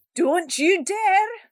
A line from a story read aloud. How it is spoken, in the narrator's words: yelled Salty